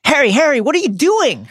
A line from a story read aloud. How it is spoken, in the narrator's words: Hermione cried